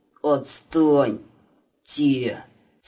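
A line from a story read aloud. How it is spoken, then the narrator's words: Strained mumble. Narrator (Russian): С усилием приподняв голову, пробормотал Иванушка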